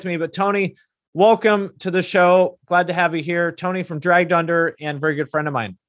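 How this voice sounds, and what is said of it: Strained, worn-out voice. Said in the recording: “My voice is a little bit shot”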